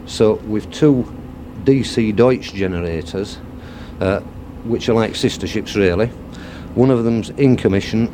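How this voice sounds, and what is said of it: Yorkshire English accent. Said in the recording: “I can tell from your accent, you're not an Essex man, are you? ... travel down from Yorkshire”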